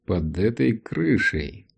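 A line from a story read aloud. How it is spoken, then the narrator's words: Thoughtful repetition. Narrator (Russian): задумчиво повторил Саймон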